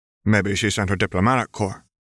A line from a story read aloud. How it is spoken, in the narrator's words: Nepeta muttered sullenly